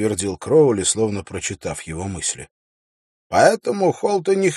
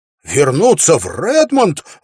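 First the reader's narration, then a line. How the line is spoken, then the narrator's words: Surprised exclamation. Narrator (Russian): воскликнул Уилл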